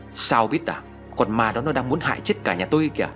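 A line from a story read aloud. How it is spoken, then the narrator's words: Loud shout. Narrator (Vietnamese): Hùng quát lớn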